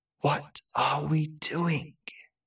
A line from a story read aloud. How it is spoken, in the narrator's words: whispered